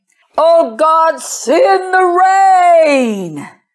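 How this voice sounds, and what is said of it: Loud voice. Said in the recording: “in a loud voice so everybody could hear me”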